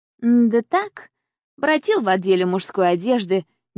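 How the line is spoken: Casual tone. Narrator (Russian): небрежным тоном отзывается он

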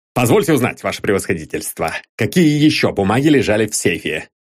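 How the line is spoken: Plain question. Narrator (Russian): спросил начальник контрразведки

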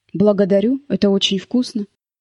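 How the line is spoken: Dry, tense guest. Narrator (Russian): гость говорил сухо и напряженно

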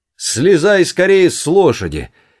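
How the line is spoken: Shouted. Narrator (Russian): крикнул Джефф

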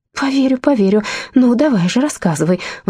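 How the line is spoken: Pleading. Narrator (Russian): взмолилась Астрид

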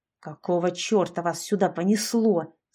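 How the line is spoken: Growling. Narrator (Russian): зарычал Саша

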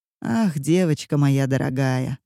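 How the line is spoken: Sigh. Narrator (Russian): вздохнула Ома

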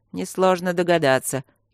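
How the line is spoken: Snide serpent. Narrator (Russian): ехидно заметил змей

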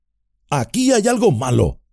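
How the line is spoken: Shout. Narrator (Spanish): gritó Sam

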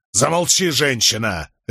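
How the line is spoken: Barked harshly. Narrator (Russian): рявкнул на нее супруг

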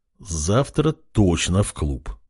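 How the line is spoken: Muttering king. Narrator (Russian): пробормотал король

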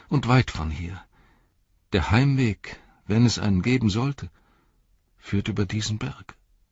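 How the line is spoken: Sighing. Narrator (German): seufzte er

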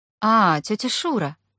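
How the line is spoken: Calm. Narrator (Russian): спокойно сказала Аня

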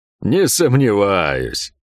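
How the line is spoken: Chuckling. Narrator (Russian): хохотнул Пень

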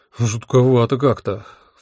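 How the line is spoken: Sighed. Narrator (Russian): вздохнул я

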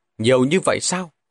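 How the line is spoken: Smiling. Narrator (Vietnamese): Lục Thiếu Du mỉm cười nói

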